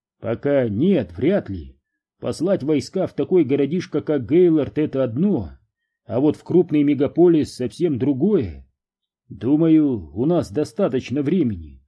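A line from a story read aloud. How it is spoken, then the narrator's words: Plain. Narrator (Russian): сказал Огден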